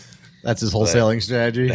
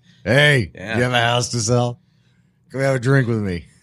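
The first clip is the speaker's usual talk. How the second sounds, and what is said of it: Impression of a friend's mannerisms. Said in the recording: “That actually is a pretty good impression of him ... That's kind of his mannerism.”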